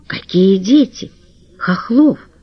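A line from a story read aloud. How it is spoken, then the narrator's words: Trembling question. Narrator (Russian): спросила она дрогнувшим голосом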